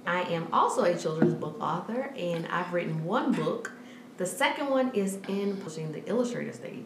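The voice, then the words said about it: Slight Southern US twang. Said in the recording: “all the way from the South. So if you hear a little twang, I am from Baton Rouge, Louisiana.”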